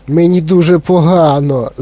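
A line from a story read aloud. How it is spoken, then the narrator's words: Moan. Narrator (Ukrainian): застогнала Віолета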